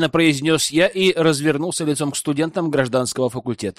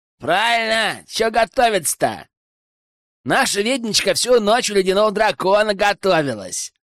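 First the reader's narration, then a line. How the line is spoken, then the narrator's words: Young man shouting. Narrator (Russian): выкрикнул какой-то парень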